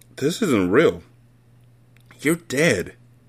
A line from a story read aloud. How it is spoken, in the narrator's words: he whispered